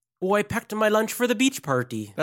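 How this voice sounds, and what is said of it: Put-on Irish accent. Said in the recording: “let me try to do Irish ... This is Irish ... That's not bad ... pretty good ... Terrible Irish accent”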